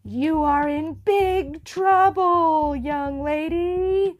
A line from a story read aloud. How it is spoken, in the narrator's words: bellowed Ming